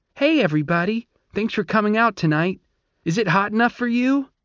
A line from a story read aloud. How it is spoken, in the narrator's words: she said in a sweet, squeaky voice